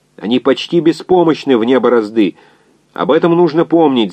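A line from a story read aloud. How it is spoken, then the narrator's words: Shouting over noise. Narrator (Russian): заорал инженер, перекрывая свист и звон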